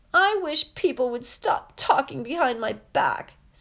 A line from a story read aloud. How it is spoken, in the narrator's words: said Myrtle, in a voice choked with tears